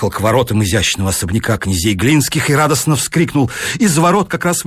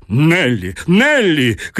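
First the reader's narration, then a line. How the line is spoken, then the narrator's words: Harmonious shout. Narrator (Russian): крикнул граф гармоничным голосом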